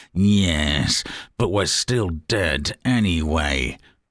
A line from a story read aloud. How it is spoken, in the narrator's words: Theresa May curls her lip and snarls